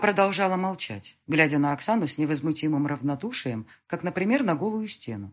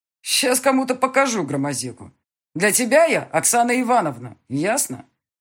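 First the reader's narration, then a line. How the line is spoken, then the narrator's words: Angry bark. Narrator (Russian): Рявкнула она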